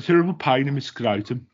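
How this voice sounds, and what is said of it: Put-on Birmingham accent. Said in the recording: “the funniest word to say in a Birmingham accent”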